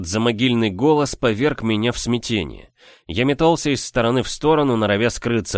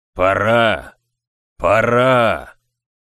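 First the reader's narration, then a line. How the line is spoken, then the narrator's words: Thundering otherworldly voice. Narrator (Russian): прогремел он потусторонним голосом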